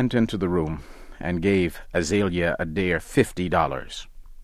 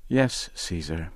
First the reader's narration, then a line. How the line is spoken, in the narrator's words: answer softly